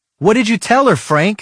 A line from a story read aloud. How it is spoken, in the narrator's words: I yelled